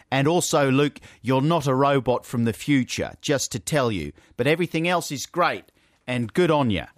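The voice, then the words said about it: Put-on Australian accent. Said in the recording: “What a brilliantly accurate depiction of the Australian accent.”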